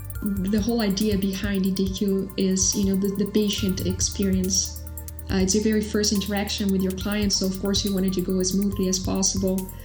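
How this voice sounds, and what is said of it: Brazilian accent. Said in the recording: “you have a really cool accent. Where's it from? ... Brazil.”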